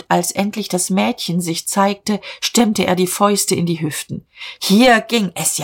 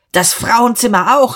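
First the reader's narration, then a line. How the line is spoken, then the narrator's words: Scream. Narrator (German): schrie Dieterich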